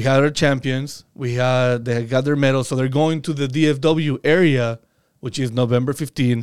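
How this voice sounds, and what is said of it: Speaks with a noticeable accent. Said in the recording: “my accent might get in the way”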